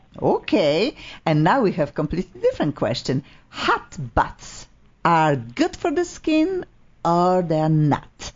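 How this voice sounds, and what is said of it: Polish-accented English. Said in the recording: “Your accent, I love your accent, but I didn't understand a word you just said ... my English Polish”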